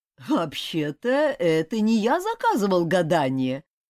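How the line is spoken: Laughing. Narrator (Russian): сквозь смех выговорил он

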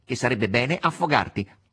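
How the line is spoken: Nasal reply. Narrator (Italian): rispose quello con voce nasale

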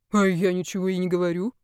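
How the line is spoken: Scoffing grunt. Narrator (Russian): хмыкнул парень

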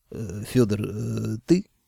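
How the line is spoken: Uncertain question. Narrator (Russian): неуверенно спросил

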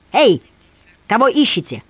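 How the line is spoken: Sharp bark. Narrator (Russian): инспектор рявкнул

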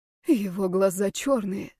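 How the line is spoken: Whispered. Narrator (Russian): прошептала она мне

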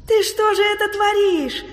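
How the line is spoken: Surprised exclamation, grandmother. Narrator (Russian): удивленно воскликнула бабушка

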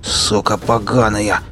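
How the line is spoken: Bandit's teeth-grinding growl. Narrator (Russian): зарычал бандит, проскрежетав зубами

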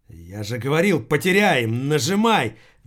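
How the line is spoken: Exclaiming. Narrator (Russian): воскликнул Киллин

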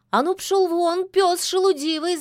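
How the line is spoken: Shouting. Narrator (Russian): закричала она

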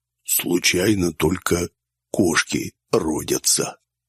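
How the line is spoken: Persistent whisper. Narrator (Russian): зашептал Дизель, не унимаясь

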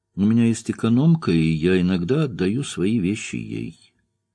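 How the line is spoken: Calm answer after pause. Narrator (Russian): Минуту она почему-то молчала, потом спокойно ответила

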